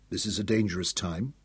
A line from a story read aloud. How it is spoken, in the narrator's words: he told them softly